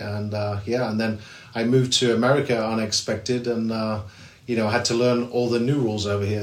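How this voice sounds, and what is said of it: English accent. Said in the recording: “I grew up in England, and as you know, you can probably tell from my accent”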